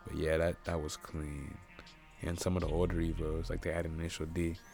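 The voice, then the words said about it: Sick, rough-sounding voice. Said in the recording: “I'm sick, by the way, so excuse my voice”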